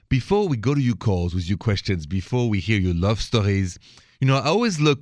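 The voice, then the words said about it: French accent. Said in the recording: “the accent is French, straight from Paris”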